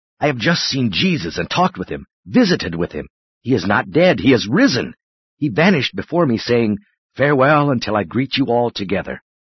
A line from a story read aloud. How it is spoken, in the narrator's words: rushed into the house, exclaiming